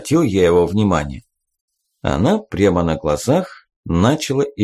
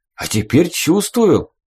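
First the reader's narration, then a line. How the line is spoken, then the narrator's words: Joyful. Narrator (Russian): радостно сказал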